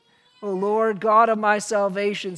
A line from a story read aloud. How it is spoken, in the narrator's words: says